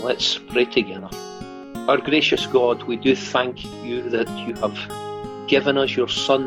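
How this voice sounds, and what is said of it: Scottish accent. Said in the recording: “Scottish from his accent. He's not a native Californian”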